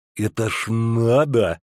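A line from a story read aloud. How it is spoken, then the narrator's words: Lisping smirk. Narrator (Russian): усмехнулся шепелявый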